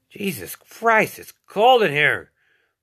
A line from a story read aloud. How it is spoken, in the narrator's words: Law yelled